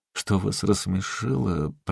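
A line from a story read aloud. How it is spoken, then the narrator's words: Mumbled. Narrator (Russian): промямлил Тидженс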